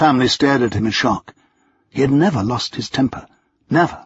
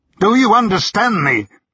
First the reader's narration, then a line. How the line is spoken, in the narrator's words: he roared